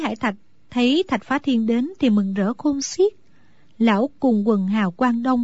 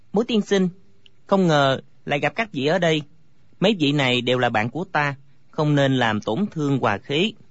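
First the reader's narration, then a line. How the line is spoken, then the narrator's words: Smiling. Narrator (Vietnamese): Thạch Phá Thiên mỉm cười nói với Bối Hải Thạch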